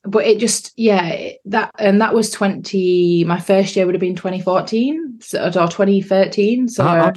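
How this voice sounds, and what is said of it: Regional accent. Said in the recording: “your accent becoming an issue ... I was told to learn to like enunciate ... I don't use dialect anymore, but obviously my accent stayed”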